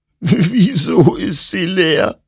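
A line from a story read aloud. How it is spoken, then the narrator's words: Sobbing. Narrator (German): schluchzte Hector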